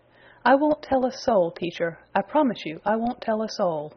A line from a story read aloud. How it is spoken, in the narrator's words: declared Peter very earnestly